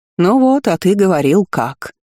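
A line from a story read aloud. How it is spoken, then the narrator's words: Cheerful snort. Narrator (Russian): весело хмыкнула Дисси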